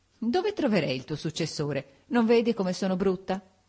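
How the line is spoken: Laughing after tears. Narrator (Italian): Mitigato il pianto, subito ridendo mi domandò

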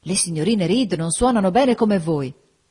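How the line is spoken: Enthusiastic exclamation. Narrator (Italian): esclamò con entusiasmo

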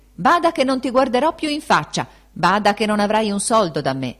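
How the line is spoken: Angry shouting. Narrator (Italian): ella, subodorato qualcosa dell'apostasia, gridandogli

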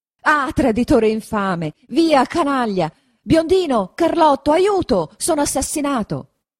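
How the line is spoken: Shouting. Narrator (Italian): grida Don Rodrigo

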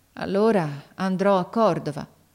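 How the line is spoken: Resigned boy, sighing. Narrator (Italian): Il ragazzo mise un sospiro, poi disse con rassegnazione

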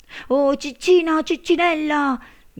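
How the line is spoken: Shouted. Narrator (Italian): gridò lui

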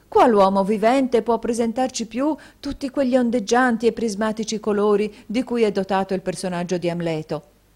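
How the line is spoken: Exclaimed. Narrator (Italian): esclamò la signora Cardle

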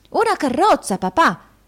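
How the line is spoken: Child's exclamation. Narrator (Italian): esclamò il piccolo Walkford

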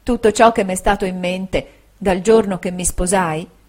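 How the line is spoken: Soft, low, tender. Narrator (Italian): ella disse con voce piana, sommessa e tenera

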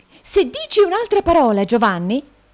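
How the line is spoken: Shrieked. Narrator (Italian): strillò la signorina Price

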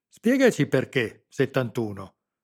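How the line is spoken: Defiant reply. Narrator (Italian): replicò Stefano in tono di sfida

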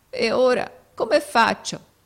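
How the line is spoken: Sobbing question. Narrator (Italian): domandò con un singhiozzo

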